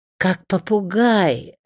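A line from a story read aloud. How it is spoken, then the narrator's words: Joyful grandmother. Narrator (Russian): радостно повторила бабушка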